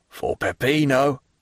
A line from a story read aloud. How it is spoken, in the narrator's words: cried Andrea, who seemed aroused from the torpor in which he had been plunged